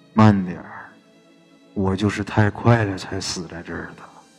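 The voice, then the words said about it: Eerie, sinister ghostly voice. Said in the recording (Chinese): “耳旁啊一个阴森森的声音说道”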